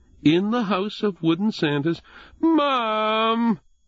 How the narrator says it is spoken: Jesse whined

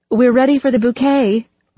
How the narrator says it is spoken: Rose called out

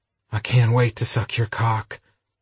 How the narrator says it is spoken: Adam purred in Ryder's ear

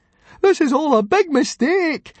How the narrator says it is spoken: wailed Fishlegs, with the anxiety of the moment

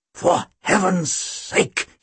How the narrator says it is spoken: he rasped

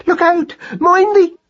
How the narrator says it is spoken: she cried in horror

